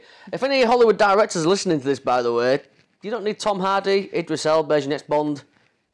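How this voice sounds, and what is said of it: British accent. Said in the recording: “I'm British ... Have you heard my accent? ... I'm like the closest thing to James Bond”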